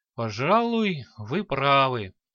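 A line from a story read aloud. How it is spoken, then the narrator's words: Heavy sigh. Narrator (Russian): тяжело вздохнул черноволосый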